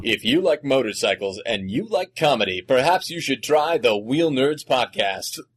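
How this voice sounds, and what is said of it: Exaggerated announcer voice. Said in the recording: “doing my announcer voice.”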